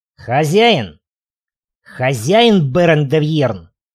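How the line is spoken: Growling shout. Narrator (Russian): Гудивар зарычал

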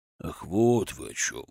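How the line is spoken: Calming grumble. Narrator (Russian): Успокаиваясь, буркнул Кузьма Петрович

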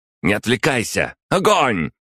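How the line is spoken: Barked command. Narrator (Russian): рявкнула Агата

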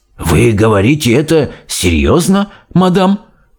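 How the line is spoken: Changed voice, male. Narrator (Russian): совсем другим голосом произнес директор

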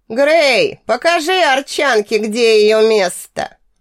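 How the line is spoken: Loud hiss. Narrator (Russian): Очень громко, чтобы услышало как можно больше народа, прошипел Габриэл

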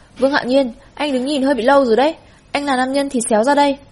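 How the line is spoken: Sharp shout. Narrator (Vietnamese): Tô Sán quát

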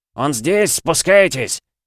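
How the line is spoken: Shouted. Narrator (Russian): Один из них выкрикнул

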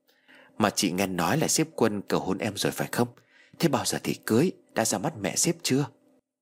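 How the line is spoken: Soft question. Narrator (Vietnamese): Chị Lan khẽ hỏi

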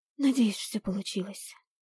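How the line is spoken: Breathy exhale. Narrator (Russian): выдохнула я

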